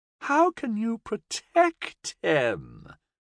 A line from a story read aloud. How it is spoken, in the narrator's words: the demon sneered